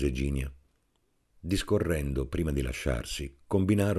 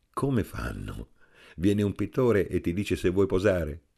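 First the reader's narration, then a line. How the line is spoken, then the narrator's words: Laughing question. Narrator (Italian): le chiese ridendo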